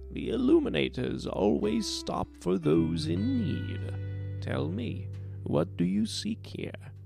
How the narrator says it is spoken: Her voice crinkled as she spoke

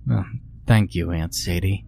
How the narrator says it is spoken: she murmured

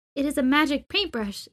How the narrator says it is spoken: exclaimed Ma Ling

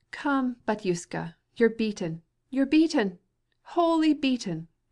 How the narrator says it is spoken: cried Katavasov gaily

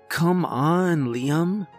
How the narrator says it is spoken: groaned

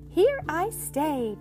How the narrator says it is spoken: chirped Chick

